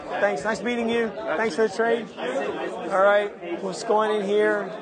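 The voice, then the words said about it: Worn-out, strained voice. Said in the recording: “You can tell my voice is getting bad.”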